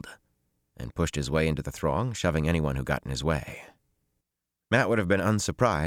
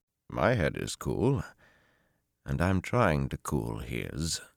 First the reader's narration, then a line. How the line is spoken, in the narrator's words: Tom said dryly